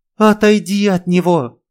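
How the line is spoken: Sharp cry. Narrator (Russian): вскрикнула госпожа Зима

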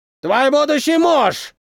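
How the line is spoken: Shouted. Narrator (Russian): крикнул он

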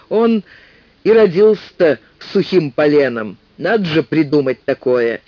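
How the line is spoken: Laughing. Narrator (Russian): И снова рассмеялся

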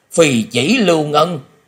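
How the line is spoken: Old man's terrified exclamation. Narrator (Vietnamese): Lão ma không khỏi kinh hoàng bật thốt lên

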